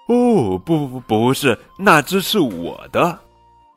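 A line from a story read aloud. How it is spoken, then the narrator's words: Sighing. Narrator (Chinese): 小刺猬叹了一口气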